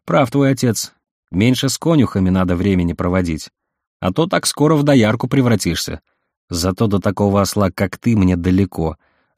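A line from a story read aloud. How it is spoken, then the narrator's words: Snapping. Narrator (Russian): огрызнулась Верка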